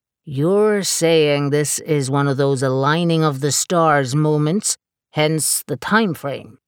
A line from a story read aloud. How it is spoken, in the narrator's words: Harlan said, his American drawl becoming more drawn out